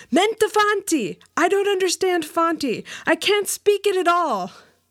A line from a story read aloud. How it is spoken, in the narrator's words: I cried out in the native tongue